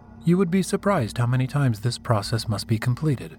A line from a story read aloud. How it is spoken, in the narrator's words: she said in a flat tone